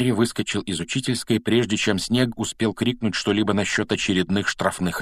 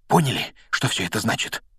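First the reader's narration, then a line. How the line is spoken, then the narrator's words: Breathed out. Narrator (Russian): выдохнул он, закончив рассказ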